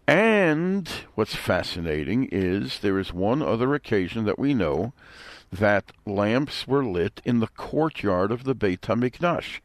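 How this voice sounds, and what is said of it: Brooklyn accent. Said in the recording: “my Brooklyn accent gets in the way sometimes”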